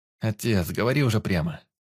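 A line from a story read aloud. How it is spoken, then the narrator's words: Sigh. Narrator (Russian): вздохнул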